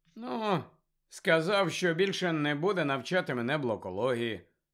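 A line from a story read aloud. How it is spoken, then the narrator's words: Indifferent voice. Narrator (Ukrainian): байдужим голосом пояснив Гаррі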